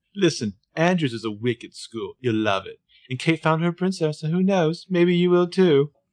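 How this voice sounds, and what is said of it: Put-on accent. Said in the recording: “Go ahead, you do the accent.”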